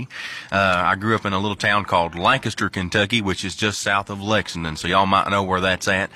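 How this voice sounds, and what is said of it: Strong Kentucky Southern accent. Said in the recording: “I've got quite the strong accent, and that's because I'm from the great state of Kentucky.”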